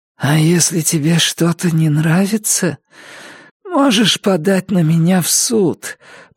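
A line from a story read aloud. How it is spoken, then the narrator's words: Hoarse rasp. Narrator (Russian): прохрипела Джесси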